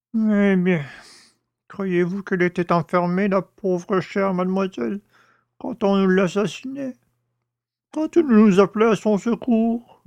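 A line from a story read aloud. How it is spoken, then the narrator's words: Old man moaning. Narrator (French): gémit le père Jacques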